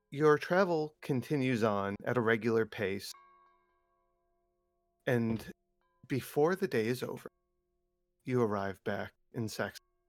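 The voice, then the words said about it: Speaking quietly. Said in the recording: “you gotta speak up a little ... I did say that quietly”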